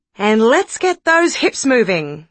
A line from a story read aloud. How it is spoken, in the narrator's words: cried Roger